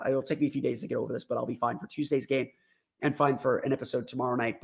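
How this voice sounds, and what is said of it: Hoarse, congested voice. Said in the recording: “Sorry for my voice being so hoarse. Sorry for the coughing, for the sniffling”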